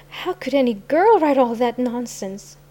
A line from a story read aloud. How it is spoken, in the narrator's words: she gasped